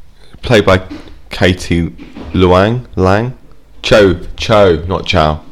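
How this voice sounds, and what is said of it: Usual voice. Nothing is said of it.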